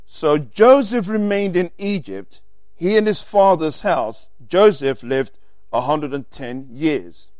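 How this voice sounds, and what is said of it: Speaks with a noticeable accent. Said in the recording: “Sorry, people, my accent.”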